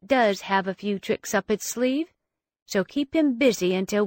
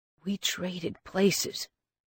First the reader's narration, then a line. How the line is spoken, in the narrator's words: Wraith murmured